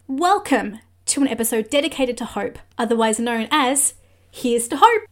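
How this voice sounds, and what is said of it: Australian accent. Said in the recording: “sounded so Aussie”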